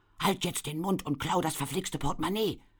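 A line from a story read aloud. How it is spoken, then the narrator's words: Interrupting hiss. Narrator (German): zischte eine andere dazwischen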